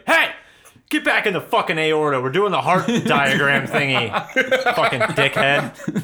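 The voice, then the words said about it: Yelling voice. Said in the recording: “why are you yelling?”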